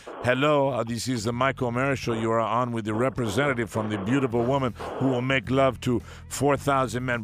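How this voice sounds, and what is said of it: Fake foreign accent. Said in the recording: “do not use the fake accent. That is our job.”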